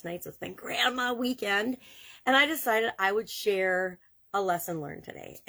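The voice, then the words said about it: Tired, congested voice with a cold. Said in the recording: “tired, I've got a cold.”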